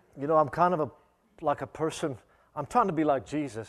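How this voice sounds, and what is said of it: Minnesotan American accent, Australian-tinged. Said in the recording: “I am from Albert Lea, Minnesota. You can probably tell by my accent. ... in Australia, they know I'm American, but when I come to America, people think I'm Australian.”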